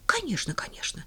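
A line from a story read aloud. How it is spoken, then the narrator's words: Hurried agreement. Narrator (Russian): согласилась она и торопливо продолжила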